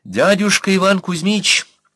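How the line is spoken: Ringing, clear voice. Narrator (Russian): звонким голосом начала Анна

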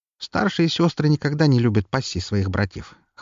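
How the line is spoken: Wry snort. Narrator (Russian): хмыкнула стоящая за стойкой женщина

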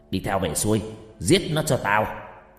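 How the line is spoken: Old man shouting. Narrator (Vietnamese): Lão quát lên

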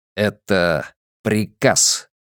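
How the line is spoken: Through gritted teeth. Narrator (Russian): процедил Десоя

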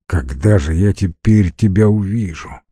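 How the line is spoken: Sad question. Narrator (Russian): грустно спросил Стивен

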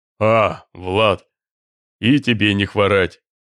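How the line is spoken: Deep bass growl over phone. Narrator (Russian): рыкнул в трубке медвежий бас

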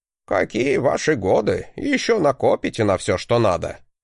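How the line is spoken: Ironic chuckle. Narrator (Russian): хохотнул на это учитель, что было довольно иронично

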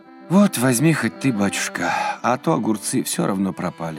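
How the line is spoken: Sigh. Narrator (Russian): вздохнула она

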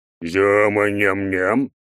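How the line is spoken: Deep bass voice. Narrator (Russian): Еще раз пробасил он

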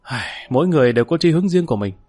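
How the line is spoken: Sighing. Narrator (Vietnamese): Lý Kỳ thở dài

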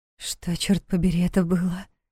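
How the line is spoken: Whispered question. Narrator (Russian): шепотом спросила Диана

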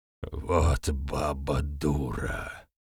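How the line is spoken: Hoarse rasp. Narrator (Russian): прохрипел

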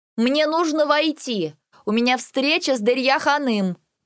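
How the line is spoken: Loud but restrained. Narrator (Russian): Попыталась произнести я так громко, чтобы не сорваться на крик

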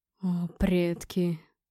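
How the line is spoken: Moaning. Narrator (Russian): простонал

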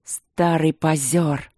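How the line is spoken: Grumbled, king. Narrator (Russian): проворчал король

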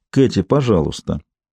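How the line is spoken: Calm. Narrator (Russian): спокойно продолжала Джейн

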